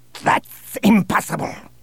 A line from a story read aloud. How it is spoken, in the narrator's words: snapped Bossk